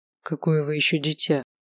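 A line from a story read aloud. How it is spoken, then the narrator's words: Purring. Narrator (Russian): Промурлыкал он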